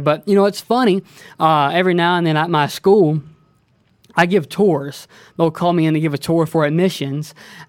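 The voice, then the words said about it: Southern Alabama accent. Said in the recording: “I'm originally from, I say LA, lower Alabama... that is not a Texas accent... I recognize your accent from somewhere”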